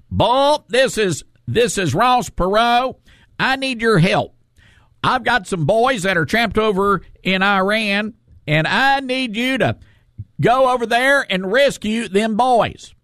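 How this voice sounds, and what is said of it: High nasal Texas Ross Perot impression. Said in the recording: “he had this high-pitched voice and this Texas accent ... very nasal, just a great, it's one of those quintessential voices”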